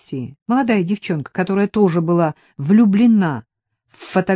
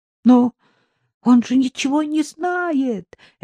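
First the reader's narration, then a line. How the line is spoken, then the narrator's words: Terrified babbling teacher. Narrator (Russian): лепетал насмерть перепуганный преподаватель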